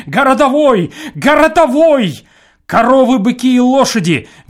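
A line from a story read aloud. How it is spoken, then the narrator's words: Terrified crowd shouting. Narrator (Russian): мы в ужасе бегали по площади и, толкая друг друга, кричали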